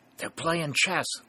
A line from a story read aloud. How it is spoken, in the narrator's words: whispered Happy Tom